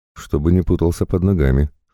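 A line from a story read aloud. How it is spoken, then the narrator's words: Snorted. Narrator (Russian): хмыкнул он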